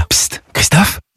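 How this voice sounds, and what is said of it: Whispering. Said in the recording (French): “pourquoi chuchotez-vous?”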